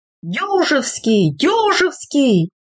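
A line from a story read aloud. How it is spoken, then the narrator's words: Group shouting. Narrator (Russian): закричали самые дальнозорькие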